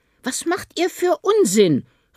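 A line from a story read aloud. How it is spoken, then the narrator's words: Mother calling from afar. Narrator (German): rief die Mutter unter den Bäumen hervor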